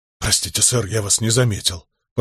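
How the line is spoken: Mumbling. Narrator (Russian): пробормотал он

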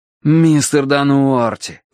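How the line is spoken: Pleading. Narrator (Russian): взмолился я

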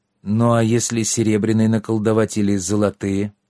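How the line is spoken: Frightened, plaintive question. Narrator (Russian): Устрашенный перспективой ходить с мешком вместо кошелька, Трикс жалобно спросил

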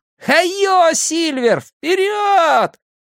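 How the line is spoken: Full-throated shout. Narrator (Russian): Билл во все горло выкрикнув

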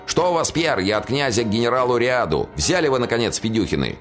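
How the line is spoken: Shouted. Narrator (Russian): Тот, что двигался из тыла, крикнул

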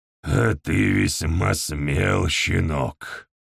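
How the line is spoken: Grumbling. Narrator (Russian): проворчал Нигглхан

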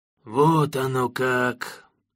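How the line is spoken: Deep, crestfallen voice. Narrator (Russian): упавшим голосом пробасил Дим Палыч

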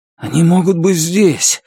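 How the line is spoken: Breathless exhale. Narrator (Russian): выдохнул Эссом

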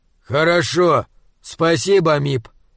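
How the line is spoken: Calm voice. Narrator (Russian): сказал Крейклин спокойным голосом

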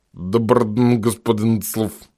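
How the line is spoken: Hoarse creature. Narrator (Russian): прохрипело создание

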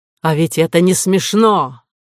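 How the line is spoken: Harsh bark. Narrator (Russian): Рявкнула на них Кора

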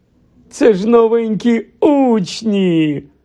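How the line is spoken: Cheerful exclamation. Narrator (Ukrainian): вигукнув гладкий чернець, усміхаючись

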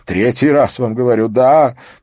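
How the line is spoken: Groan. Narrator (Russian): простонал Стёп

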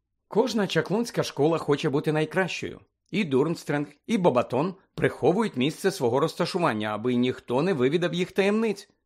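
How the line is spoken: Matter-of-fact explanation. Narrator (Ukrainian): пояснила буденним тоном Герміона

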